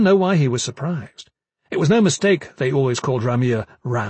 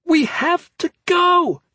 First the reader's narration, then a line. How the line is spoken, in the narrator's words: Kip nearly shouted